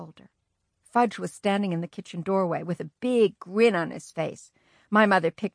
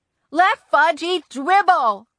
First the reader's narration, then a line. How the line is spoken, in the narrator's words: I screamed